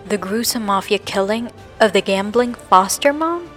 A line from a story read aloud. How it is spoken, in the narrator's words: asked